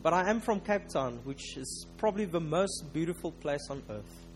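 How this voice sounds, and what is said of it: South African accent. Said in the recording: “Please do excuse my South African accent. I know it's not always that easy to understand.”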